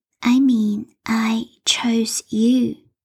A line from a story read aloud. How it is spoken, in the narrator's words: she said in that sweet, unsettling voice